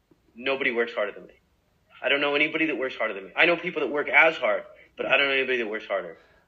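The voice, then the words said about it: Los Angeles accent. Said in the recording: “this LA accent”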